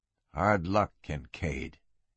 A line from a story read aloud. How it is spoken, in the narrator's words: he muttered to himself